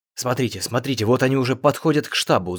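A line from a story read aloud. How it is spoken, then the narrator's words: Hot close whisper. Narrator (Russian): зашептал Чатраги, обдавая мне жаром ухо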